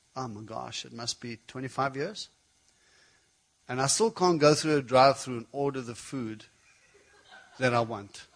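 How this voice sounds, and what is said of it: Speaks English with a foreign accent. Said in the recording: “interpretation of foreign tongues. People get confused with my accent all the time.”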